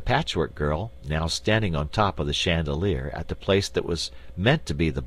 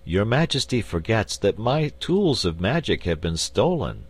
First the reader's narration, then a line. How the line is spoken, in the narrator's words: said the wizard sadly